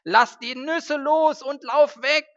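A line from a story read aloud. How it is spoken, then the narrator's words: Desperate shout. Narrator (German): schrie Twieger verzweifelt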